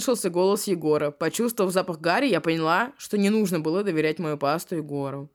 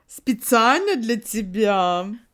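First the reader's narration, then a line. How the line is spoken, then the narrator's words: Proud. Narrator (Russian): Гордо произнесла подруга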